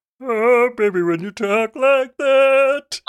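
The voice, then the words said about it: Sung imitation of another singer. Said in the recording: “my impression of Shakira ... warming up my voice by singing Shakira ... I would know that's Shakira”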